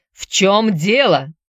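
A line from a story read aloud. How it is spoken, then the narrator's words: Captain roaring. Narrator (Russian): взревел капитан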